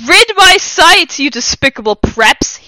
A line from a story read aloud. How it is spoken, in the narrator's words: He shouted